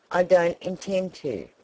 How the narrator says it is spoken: replied Files

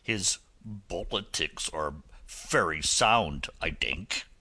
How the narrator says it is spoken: he growled

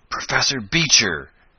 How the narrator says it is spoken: gasped the young inventor

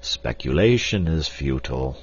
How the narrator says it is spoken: said Professor Porter sadly

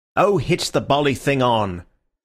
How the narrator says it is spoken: said Syme impatiently

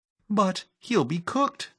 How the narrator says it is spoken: cried Phyllis

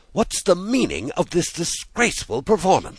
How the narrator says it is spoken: she said sternly

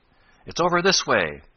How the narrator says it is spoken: Ned shouted, seeing no need for low voices since the other was so loud

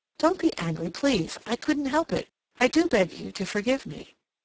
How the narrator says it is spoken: Cassandra exclaimed impulsively

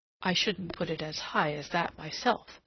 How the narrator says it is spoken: said

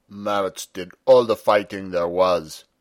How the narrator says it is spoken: said sulkily

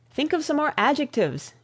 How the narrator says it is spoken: exclaimed the young man

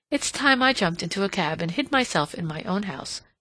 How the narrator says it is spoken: she exclaimed

